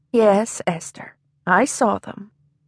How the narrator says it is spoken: said gently

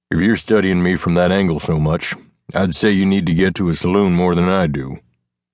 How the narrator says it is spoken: Shifting uncomfortably to find a better position, he grunted

